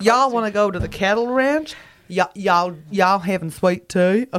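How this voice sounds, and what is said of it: Put-on Texan accent. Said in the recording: “Texan.”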